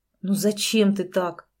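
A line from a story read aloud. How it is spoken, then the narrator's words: Breathed out. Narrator (Russian): выдохнул Андрей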